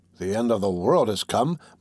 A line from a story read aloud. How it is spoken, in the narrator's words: muttered Master André